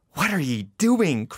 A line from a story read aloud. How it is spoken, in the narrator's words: cried Manfred wrathfully